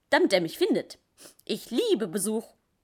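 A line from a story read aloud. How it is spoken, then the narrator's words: Cheerful sniffling. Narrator (German): schnuffelte er fröhlich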